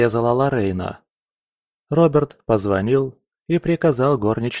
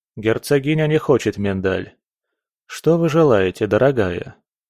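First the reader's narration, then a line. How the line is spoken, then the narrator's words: Most courteous tone. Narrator (Russian): обратился Роберт к Лоррейне самым любезным тоном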